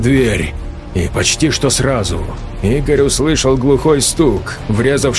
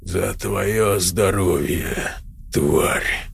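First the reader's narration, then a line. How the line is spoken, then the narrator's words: Hoarse rasp. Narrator (Russian): Он прохрипел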